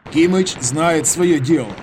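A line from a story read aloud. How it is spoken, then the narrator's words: Plain. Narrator (Russian): сказал Михаил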